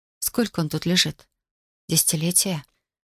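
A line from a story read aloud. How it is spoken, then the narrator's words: Barely audible. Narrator (Russian): Едва слышно спросила я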